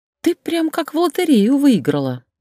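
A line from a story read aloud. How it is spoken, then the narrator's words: Giggling. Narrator (Russian): Люся хихикнула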